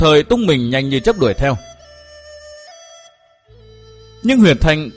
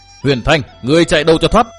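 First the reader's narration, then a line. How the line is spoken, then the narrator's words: Loud shout. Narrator (Vietnamese): quát to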